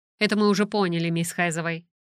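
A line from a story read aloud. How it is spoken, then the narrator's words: Dry curt reply. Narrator (Russian): сухо ответила Альберта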